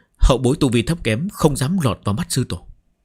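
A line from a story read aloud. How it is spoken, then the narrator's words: Respectful, hiding fear. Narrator (Vietnamese): Chỉ Trích Vân trong lòng run rẩy, nhưng không dám biểu lộ ra ngoài, cung kính đáp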